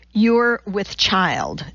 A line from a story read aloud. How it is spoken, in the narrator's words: Donati said